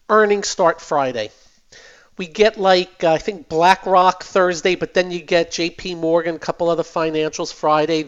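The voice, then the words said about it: Strained voice, losing his voice. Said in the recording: “if it sounds like I'm losing my voice, it's because I'm losing my voice”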